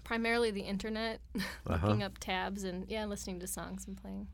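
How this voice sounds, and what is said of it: Minnesota accent. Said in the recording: “There's my Minnesota accent. ... I heard that. I heard it, yeah. ... the Minnesota accent just comes running out. You can't stop it.”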